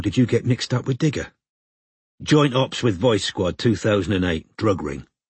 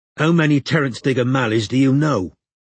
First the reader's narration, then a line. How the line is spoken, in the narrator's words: asked Strike impatiently